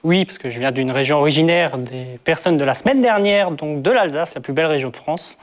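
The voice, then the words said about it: Slight regional French accent. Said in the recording (French): “Vous avez un petit accent, quand même.”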